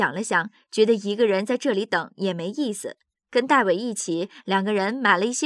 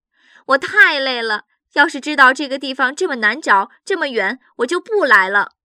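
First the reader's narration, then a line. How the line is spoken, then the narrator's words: Called out. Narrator (Chinese): 杰夫叫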